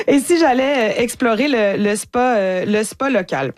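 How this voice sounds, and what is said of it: Put-on Dutch accent. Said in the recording (French): “Je vais avec l'accent néerlandais.”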